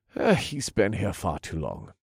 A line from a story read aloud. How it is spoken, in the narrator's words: the boss said calmly